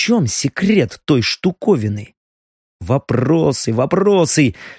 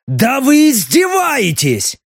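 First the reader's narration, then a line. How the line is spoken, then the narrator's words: Bark. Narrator (Russian): рявкнул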